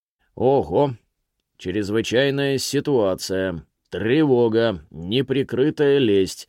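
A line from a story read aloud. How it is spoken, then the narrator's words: Mock electronic voice. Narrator (Russian): произнес он электронным голосом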